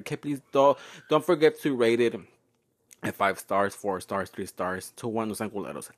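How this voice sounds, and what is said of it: Talking very fast. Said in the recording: “I'm talking so fast ... because I'm really in a hurry right now”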